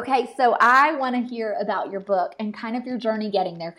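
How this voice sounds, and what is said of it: Nashville accent. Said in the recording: “this is not a Colorado accent. I'm a Nashville girl.”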